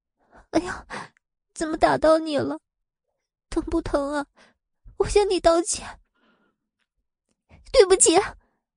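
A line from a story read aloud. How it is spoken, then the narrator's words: Tearful, near crying. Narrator (Chinese): 他便带着哭腔的对林雨柔说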